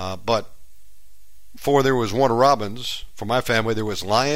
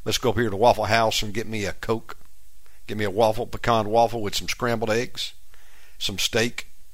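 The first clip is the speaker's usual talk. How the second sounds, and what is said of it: Put-on Southern Georgia accent. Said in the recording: “Georgia boy ... if you go back home, it's not long before you begin to pick up the accent”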